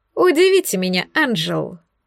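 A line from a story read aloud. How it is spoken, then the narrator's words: Snide grinning tone. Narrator (Russian): ехидно оскалился Оскар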